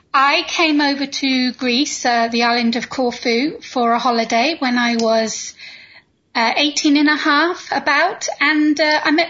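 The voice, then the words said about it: Slight British accent. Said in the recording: “there's a little bit of an accent that I'm assuming that is not Greek... originally from the UK”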